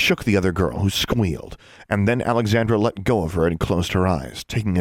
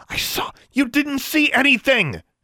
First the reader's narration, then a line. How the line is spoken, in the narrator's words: Alexandra shouted